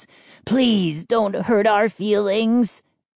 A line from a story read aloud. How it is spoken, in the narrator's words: Chip rasped